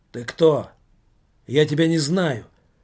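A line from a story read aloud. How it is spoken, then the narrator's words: Gruff blurt. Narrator (Russian): грубоватым тоном выпалил Иннокентий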